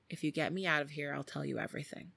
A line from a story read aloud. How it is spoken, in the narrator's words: Jenny whispers to a police officer